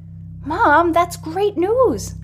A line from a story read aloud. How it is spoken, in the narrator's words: Magpie says excitedly